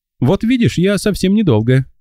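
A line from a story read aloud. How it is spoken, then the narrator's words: Cheerful announcement. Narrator (Russian): весело объявила незнакомка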